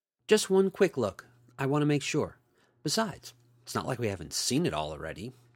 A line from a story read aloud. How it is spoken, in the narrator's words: Tina said